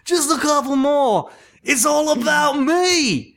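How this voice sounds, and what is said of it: Imitates another person's accent. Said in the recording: “That was his accent. That was spot on”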